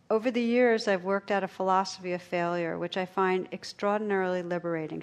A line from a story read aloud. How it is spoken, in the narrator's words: she said